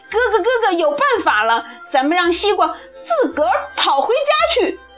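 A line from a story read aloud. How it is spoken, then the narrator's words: Loud excited shout. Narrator (Chinese): 小懒大声喊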